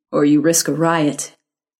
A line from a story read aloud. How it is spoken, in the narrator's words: Malcolm said grimly